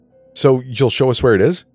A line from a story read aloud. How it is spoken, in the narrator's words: Danny asked in an excited voice